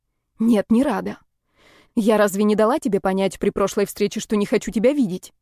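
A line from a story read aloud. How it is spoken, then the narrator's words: Sharp reply. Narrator (Russian): резко ответила я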